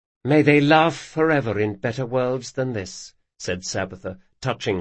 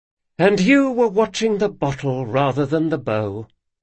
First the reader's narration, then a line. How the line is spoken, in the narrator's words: said Locke with a theatrical sigh